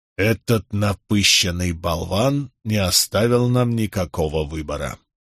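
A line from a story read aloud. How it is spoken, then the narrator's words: Hissed through teeth. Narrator (Russian): сквозь зубы процедил Барак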